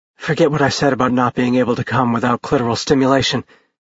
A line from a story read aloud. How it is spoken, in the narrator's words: she said weakly